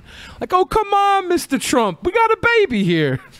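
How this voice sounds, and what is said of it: Impression that sounds almost Italian. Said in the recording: “You almost sounded Italian”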